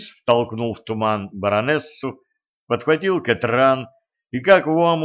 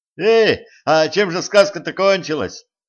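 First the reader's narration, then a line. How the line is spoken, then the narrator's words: Loud yell. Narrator (Russian): завопил Алекс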